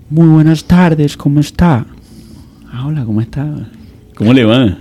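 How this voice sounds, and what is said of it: Imitated Medellín women's accent. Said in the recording (Spanish): “acento de, de las de Medellín ... acento de las mujeres de Medellín ... esa voz”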